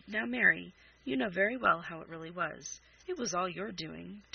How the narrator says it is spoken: Charles laughed again and said

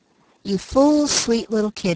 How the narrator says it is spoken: he muttered

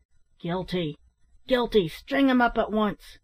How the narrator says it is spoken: several of the miners cried out

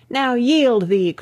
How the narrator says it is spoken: cried Lars Porsena

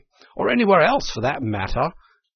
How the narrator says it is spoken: cried Toad boisterously

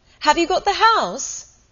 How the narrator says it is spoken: they shouted, long before she could possibly hear

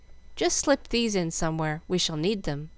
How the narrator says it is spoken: saying calmly

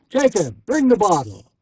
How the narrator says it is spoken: shouted the host

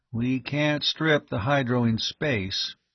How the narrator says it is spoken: he pointed out the obvious quietly

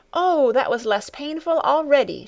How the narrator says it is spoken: she exclaimed joyfully

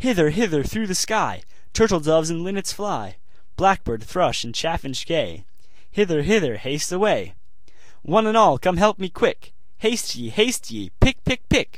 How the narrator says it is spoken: the little maiden cried out as before

